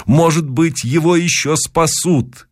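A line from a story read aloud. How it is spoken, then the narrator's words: Shouting. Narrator (Russian): кричал я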